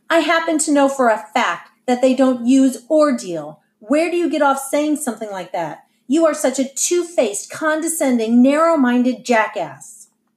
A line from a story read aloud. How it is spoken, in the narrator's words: Lynetta shouted